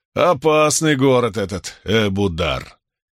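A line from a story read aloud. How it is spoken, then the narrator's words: Booming laughter. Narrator (Russian): Иллианец раскатисто расхохотался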